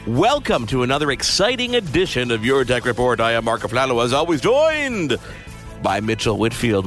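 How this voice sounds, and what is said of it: Announcer-style radio voice. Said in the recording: “I didn't know we were using radio voice today.”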